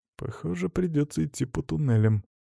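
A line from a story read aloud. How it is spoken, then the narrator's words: Sighing. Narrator (Russian): вздохнул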